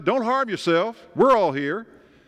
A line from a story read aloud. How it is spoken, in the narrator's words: Paul shouted